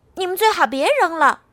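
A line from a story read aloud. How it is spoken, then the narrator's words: Shouting outward. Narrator (Chinese): 爱丽丝冲外面喊道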